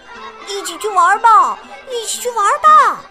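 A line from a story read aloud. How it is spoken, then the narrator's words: Children calling out. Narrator (Chinese): 孩子们呼喊着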